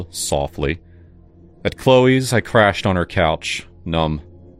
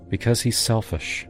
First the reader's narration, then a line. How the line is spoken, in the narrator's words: she said gently